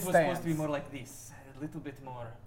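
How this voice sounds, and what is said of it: Put-on fantasy Kalimshan accent. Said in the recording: “accent was a little off ... the accent ... recognize the accent ... Kalashan”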